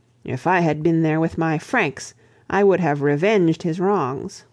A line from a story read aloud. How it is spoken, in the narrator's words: he grasped his battle-axe fiercely and exclaimed